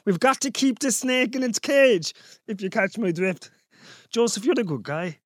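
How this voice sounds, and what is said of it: Put-on accent, inconsistent. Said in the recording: “Where is this accent even going?”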